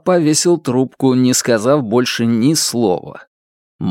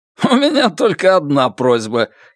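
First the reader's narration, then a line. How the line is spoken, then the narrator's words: Giggling. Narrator (Russian): хихикнул Гао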